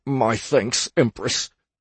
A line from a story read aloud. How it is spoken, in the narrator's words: he stammered through clenched teeth